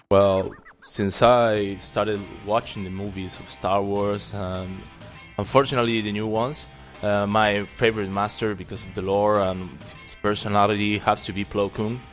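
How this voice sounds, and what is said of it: Uruguayan Spanish-accented English. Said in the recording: “that accent of yours is pure sex. What kind of accent is that? Where are you from, man? ... I'm from Uruguay, South America ... I had my accent.”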